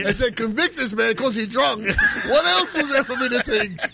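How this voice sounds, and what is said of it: Put-on Black voice. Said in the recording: “doing his black voice”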